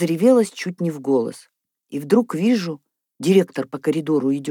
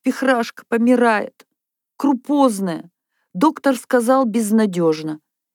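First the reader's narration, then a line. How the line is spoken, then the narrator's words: Sobbing. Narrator (Russian): Одна всхлипнула и говорит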